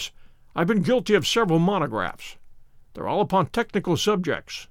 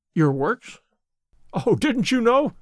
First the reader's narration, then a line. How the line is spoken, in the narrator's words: he cried, laughing